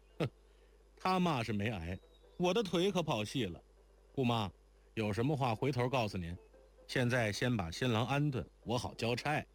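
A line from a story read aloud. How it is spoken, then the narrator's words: Laughing. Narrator (Chinese): 若愚笑道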